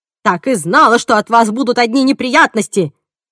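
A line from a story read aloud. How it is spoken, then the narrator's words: Yelling. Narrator (Russian): орала Джейн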